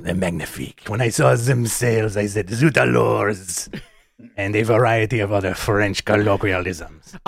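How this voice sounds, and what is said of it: Put-on Pepe Le Pew French accent. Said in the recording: “This Pepe Le Pew accent ... this accent has come out ... you hit it so well”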